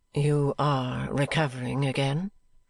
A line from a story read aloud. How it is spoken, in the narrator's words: she asked kindly